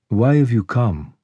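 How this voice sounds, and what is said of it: Velvety smooth, youthful woman's voice. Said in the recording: “Her voice was velvety smooth, much younger than her looks.”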